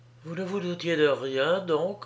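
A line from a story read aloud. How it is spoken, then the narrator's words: Gentle question. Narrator (French): lui demanda-t-elle doucement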